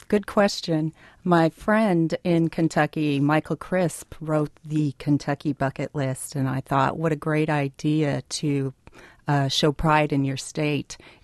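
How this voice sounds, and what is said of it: Accent not from Wisconsin, Kentucky-influenced. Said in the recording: “that accent and say, that doesn't sound like a Wisconsin native's accent. ... I've spent the last 14 years in Kentucky.”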